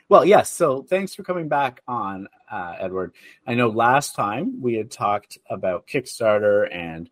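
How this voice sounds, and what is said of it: Slightly altered, congested voice. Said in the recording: “getting over a cold, so my voice is maybe a little different today”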